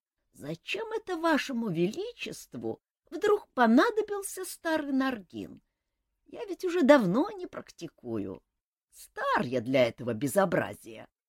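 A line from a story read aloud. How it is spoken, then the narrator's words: Creaky old man's voice. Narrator (Russian): Мэтр Наргин, сгорбленный лысый старичок, проскрипев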